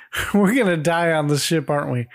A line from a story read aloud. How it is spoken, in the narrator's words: Cindy comes running up asking